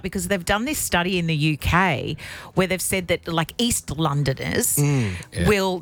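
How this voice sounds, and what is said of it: Broad Australian accent. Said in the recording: “Like a broad Australian accent. ... It's very broad.”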